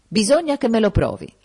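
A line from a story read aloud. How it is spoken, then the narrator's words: Exclamation. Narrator (Italian): ha esclamato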